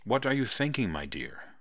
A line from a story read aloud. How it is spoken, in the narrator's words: Vernon asked kindly